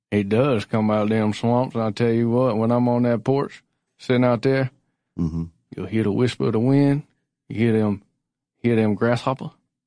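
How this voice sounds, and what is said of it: Put-on old-man accent. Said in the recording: “this is getting weird, this accent”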